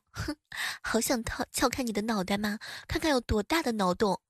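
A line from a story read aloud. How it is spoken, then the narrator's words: Murmuring. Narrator (Chinese): 我喃喃的说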